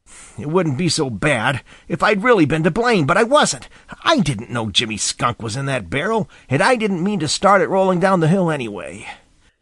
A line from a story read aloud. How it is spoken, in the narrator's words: he muttered